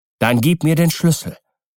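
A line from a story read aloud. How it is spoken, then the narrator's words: Calm reply. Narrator (German): versetzte der andere ruhig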